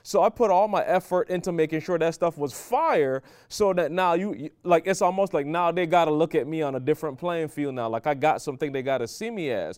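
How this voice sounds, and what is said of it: Foreign accent. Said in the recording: “I got an accent. You know, yo, I talk a little different from some of these people ... I come from a different country”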